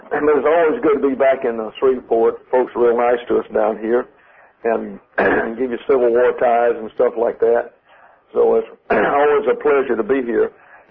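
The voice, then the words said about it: Raspy, strained voice. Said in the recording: “the more trouble I have with my voice ... You'll have to forgive my raspy voice tonight.”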